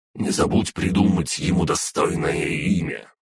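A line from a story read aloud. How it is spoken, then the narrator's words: Grumbling. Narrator (Russian): проворчала Фая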